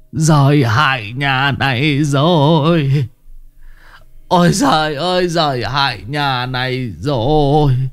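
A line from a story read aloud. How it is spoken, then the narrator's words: Wailing. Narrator (Vietnamese): Cụ Tránh gào lên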